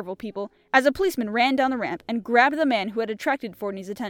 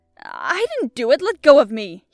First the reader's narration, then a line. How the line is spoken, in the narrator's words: he cried